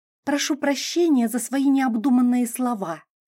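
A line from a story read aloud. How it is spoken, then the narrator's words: Girl hissing. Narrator (Russian): с шипением выдала девушка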